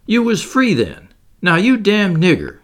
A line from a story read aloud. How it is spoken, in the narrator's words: he exclaimed